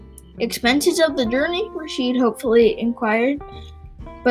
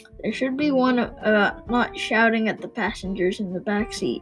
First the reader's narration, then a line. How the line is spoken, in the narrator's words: Groom muttered